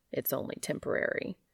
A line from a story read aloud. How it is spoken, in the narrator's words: His defensive reaction and muttered